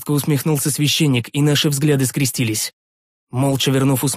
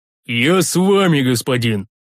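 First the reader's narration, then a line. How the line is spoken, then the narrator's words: Muffled grumbling, big man. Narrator (Russian): глухо заворчал здоровяк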